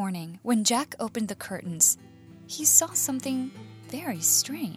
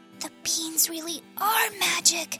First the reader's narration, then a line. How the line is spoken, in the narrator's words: whispered Jack